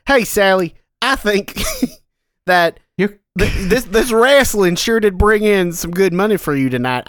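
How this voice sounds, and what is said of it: Put-on American Western accent. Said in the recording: “trying to say O'Sullivan in a Western accent”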